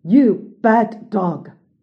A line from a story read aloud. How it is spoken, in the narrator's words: The evil man roared